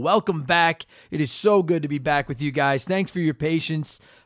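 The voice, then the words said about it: Hoarse, cracking recovering voice. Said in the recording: “I lost my voice ... You can probably still hear it. I've got a hint of puberty, traces of it still in the old vocal cords there.”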